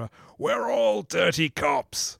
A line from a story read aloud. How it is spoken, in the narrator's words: one of them just bellows into the camera